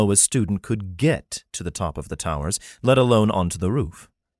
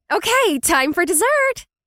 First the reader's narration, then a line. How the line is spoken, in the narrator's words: she exclaimed brightly